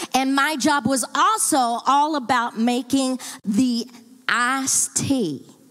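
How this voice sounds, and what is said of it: Southern US accent slips out. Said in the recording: “Did you hear my accent come out on that one? ... Because we are from the South”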